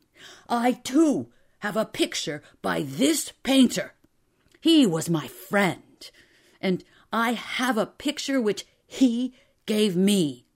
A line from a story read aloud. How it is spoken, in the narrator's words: Drioli was shouting